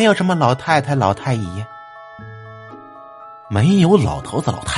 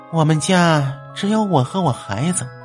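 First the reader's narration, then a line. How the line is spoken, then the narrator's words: Girl sighing. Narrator (Chinese): 女孩子叹了口气说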